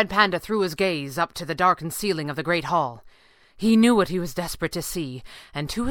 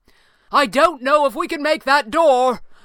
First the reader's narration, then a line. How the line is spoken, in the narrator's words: Falcone cried